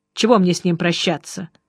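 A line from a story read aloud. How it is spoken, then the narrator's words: Cold. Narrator (Russian): холодно сказал Жеглов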